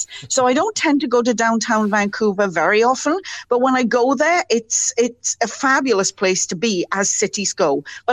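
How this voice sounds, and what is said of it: Welsh accent. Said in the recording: “your accent ... I'm Welsh ... the accent's never going to go away”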